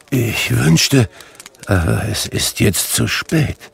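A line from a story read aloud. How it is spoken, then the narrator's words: Murmuring. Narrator (German): murmelte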